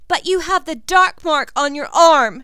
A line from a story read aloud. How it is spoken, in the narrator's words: she screams